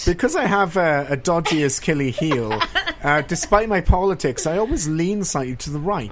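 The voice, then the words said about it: British accent. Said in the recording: “his British accent”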